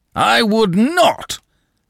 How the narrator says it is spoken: Danton broke in, bellowing

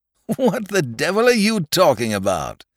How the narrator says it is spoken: said the doctor with a loud laugh

